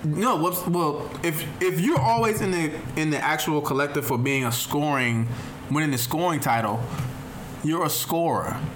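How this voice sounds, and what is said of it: Country accent. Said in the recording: “My country accent is throwing in there.”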